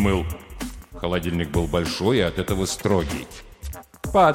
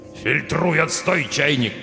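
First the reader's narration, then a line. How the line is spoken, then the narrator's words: Growled. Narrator (Russian): прорычал кран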